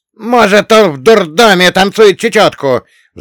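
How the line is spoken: Roaring. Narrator (Russian): взревел Салли

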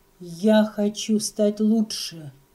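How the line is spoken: Through gritted teeth, angry. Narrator (Russian): сказал он сквозь зубы, как будто гневался

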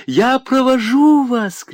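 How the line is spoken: Shouted. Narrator (Russian): крикнула Кама

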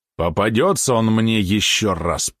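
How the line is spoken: Speaking through teeth. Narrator (Russian): процедил Рувинский

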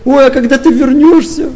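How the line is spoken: Tearful, whiny. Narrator (Russian): А третья таким плаксивым тоном

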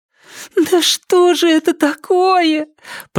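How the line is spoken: Moaning. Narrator (Russian): простонала Триша

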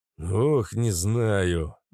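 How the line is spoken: Sigh. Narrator (Russian): вздохнул Нерон

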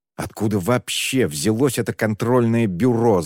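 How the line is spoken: Angry exclamation. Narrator (Russian): зло воскликнул он

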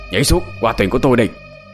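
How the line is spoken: Shouting monk. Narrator (Vietnamese): Sư thầy quát lên

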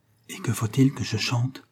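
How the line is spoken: Said softly. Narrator (French): dit encore tout bas Agnès

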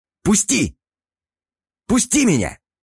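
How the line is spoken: Fearful screaming. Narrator (Russian): Завопил Демиург, ощущая, как внутри него поселяется холодный страх

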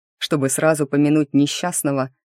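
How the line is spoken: Snorting young man. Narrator (Russian): хмыкнул кто-то из парней

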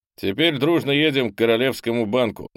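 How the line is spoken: Loud announcement. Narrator (Russian): громко объявил попаданец

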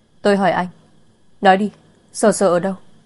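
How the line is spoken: Loud, tearful demand. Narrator (Vietnamese): hốc mắt đỏ lên, cô lớn tiếng hỏi

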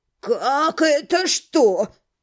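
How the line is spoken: Irritated exhale. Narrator (Russian): раздраженно выдохнул он

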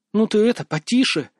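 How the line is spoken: Hissing. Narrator (Russian): зашипела на Андрея Сьюзен

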